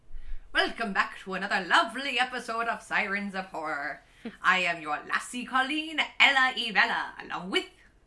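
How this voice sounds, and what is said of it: Deliberately bad put-on Irish accent. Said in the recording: “really terrible Irish accent.”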